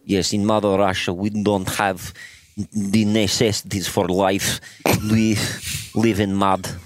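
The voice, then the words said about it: Put-on Russian accent, throaty. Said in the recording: “this voice ... the back Russian, of throat. The Russian accent is you swallow words”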